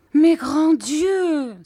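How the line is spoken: Exclaiming. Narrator (French): s'écriait ma mère

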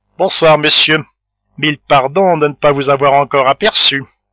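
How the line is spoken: Curt, ironic. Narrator (French): dit d'un ton sec et ironique

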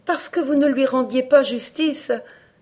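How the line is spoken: Exclaimed. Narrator (French): s'écria Alice

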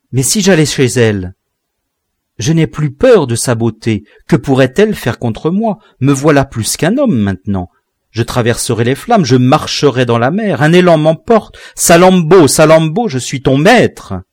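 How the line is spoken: Thundering voice. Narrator (French): Sa voix tonnait

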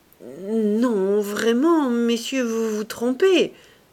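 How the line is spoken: Stammering, false modesty. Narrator (French): balbutiait Saccard avec une fausse modestie

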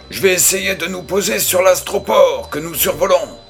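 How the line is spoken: Sergeant shouting. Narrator (French): cria le sergent

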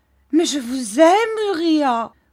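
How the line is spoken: Exclaimed. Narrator (French): s'écria Mistress Heep

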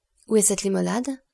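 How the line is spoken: Brisk question from doctor. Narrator (French): demanda vivement le docteur

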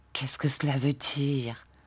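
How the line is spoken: Murmur. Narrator (French): murmura Marthe

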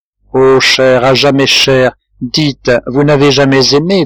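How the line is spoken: Plain question. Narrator (French): demanda-t-il

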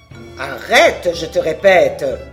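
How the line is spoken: Menacing shout. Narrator (French): hurla d'une voix menaçante

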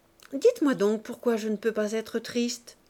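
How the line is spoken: Brisk. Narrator (French): vivement

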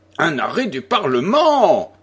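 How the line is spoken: Muffled lordly exclamation. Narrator (French): s'exclama sourdement le seigneur de Pienne

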